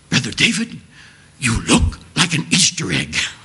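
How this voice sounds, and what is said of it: Heavy German accent imitation. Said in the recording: “she has a heavy German accent.”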